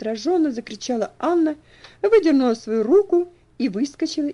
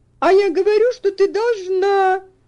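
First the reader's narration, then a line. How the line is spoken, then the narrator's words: Shrieking. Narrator (Russian): завизжала Анна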